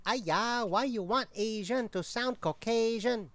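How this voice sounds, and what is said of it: Put-on fake accent. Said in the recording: “You're using a fake accent right now anyway!”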